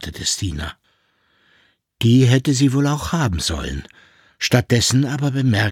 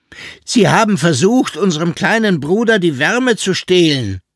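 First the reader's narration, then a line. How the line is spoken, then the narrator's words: Called out. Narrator (German): rief sie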